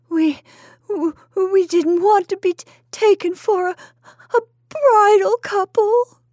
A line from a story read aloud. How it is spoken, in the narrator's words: sobbed Mrs